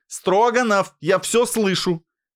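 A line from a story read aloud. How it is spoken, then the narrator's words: Headmistress shouting after. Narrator (Russian): крикнула ему вслед директриса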